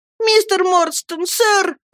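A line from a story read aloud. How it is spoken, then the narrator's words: Shouting. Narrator (Russian): закричал я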